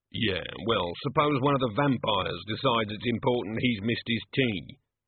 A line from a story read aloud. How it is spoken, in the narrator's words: grumbled Igor